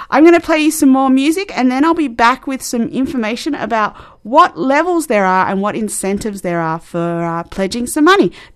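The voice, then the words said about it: Australian accent. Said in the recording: “As you can hear by the accent, I am in Australia”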